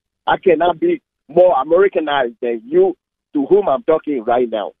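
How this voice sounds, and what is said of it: Foreign non-American accent. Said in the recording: “through my accent, you can tell that I'm not from here”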